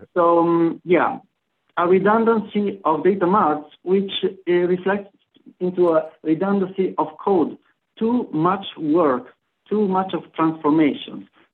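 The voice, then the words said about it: Italian-accented English. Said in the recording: “this Italian accent. That's how I speak.”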